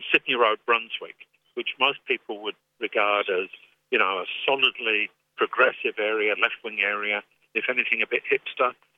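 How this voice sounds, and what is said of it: English accent. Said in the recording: “I don't have an Australian accent, I've got an English accent.”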